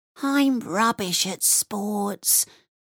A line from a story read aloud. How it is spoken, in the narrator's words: she whispered to her best friend Shivani